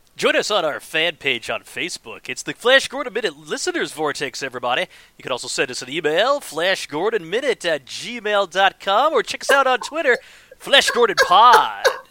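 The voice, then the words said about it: Radio announcer voice. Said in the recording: “in my radio voice ... That's a pretty good radio voice”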